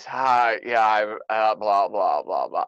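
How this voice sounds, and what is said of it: Sick, dry-throated voice. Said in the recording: “I had a dry throat ... I lost my sense of taste and I was sick ... I'm sounding like this ... my voice is really not what it should be”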